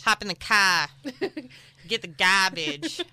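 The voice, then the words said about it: Weak put-on Boston accent. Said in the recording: “that accent ... The Boston accent ... I'm not very good at accents.”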